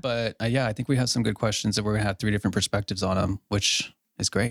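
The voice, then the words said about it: Smooth radio-style voice. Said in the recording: “your voice sounds really good... He does have a radio voice”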